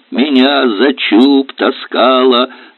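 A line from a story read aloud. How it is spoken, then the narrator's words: Laughing. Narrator (Russian): Аристарх Павлович засмеялся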